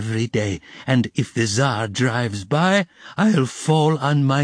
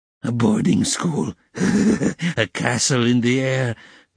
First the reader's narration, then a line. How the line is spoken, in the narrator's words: cried Katerina Ivanovna, her laugh ending in a cough